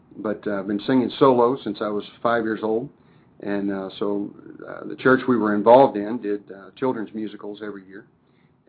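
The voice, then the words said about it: Slightly hoarse voice. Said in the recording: “a little hoarse right now”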